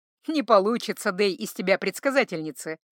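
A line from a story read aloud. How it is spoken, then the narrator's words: Amused snort. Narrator (Russian): хмыкнул Златко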